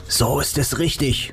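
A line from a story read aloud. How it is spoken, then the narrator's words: Whisper. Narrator (German): flüsterte Nick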